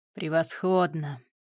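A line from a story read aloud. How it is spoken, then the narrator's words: Satisfied drawl. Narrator (Russian): удовлетворенно протянул Гриша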